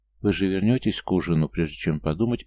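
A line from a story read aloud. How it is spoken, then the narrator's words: Breathy exhale. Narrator (Russian): выдохнула девушка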